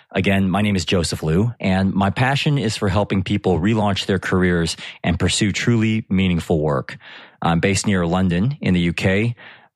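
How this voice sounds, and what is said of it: American accent. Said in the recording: “as you can probably tell from my accent, I'm originally from the US.”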